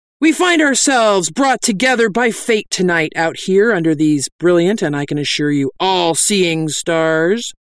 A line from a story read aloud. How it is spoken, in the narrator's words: cried